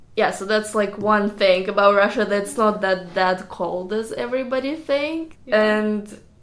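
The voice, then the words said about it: Russian accent. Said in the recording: “They, like, hear my accent, I'm, like, from Russia”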